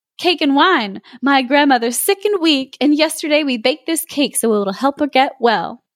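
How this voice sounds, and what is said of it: Silly, slightly transatlantic character voice. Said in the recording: “I want to give her like a stupid voice. ... A little transatlantic.”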